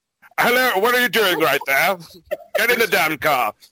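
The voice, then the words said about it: Imitates another person's voice. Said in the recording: “Who's going to do the voice? ... Sir Patrick Stewart.”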